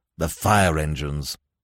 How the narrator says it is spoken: said Weymouth coolly

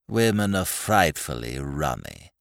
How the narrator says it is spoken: he said gloomily

